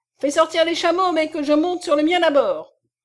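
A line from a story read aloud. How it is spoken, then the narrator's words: Exclaimed. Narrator (French): s'écria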